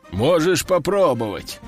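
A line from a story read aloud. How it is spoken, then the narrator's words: Deep bass voice. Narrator (Russian): пробасил жираф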